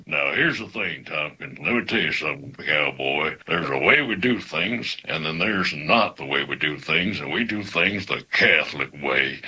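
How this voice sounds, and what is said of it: Imitates a cowboy actor's voice. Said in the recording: “since it was a cowboy ... my best Sam Elliott impression ... they wanted to dial it back and just use my regular, you know, speaking voice”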